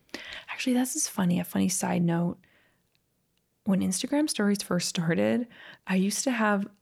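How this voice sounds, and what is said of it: Usual voice. Nothing is said of it.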